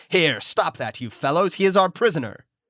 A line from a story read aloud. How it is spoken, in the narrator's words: my two guards cried